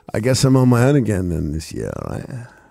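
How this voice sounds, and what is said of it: Stupid rock star voice. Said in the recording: “talking this stupid voice. Like a sort of rock star without a band... Calling everyone guys... It's not far off your pilot voice”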